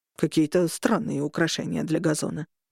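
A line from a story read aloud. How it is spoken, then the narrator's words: Muttered. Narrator (Russian): пробормотал Леон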